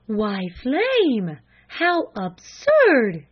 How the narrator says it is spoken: gasped her mother

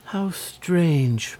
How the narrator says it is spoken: murmured Cecily, much impressed

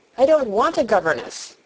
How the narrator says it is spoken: said Mary sharply

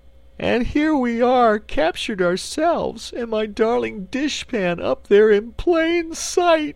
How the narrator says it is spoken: wailed the Cookie Cook

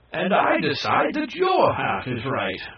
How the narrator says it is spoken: exclaimed the Kai

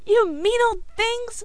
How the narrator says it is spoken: screamed Billy

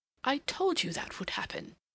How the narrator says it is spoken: he exclaimed

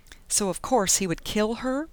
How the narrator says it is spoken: Penny scoffed bitterly

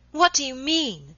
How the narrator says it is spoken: she cried suddenly after a pause of some moments

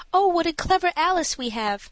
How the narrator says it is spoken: Then the mother likewise exclaimed

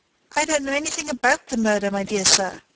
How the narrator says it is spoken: exclaimed Mr

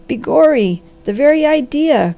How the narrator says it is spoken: cried the Harvester

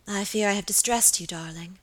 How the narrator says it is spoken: murmured Lady Audley

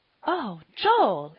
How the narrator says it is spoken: exclaimed Polly, quite shocked

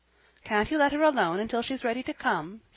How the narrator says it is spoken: said Jasper, quickly

